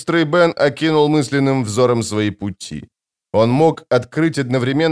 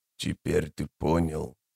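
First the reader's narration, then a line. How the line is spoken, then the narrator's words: Wheezing, broken speech. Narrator (Russian): продолжил незнакомец, чью речь то и дело прерывали сиплые хрипящие вздохи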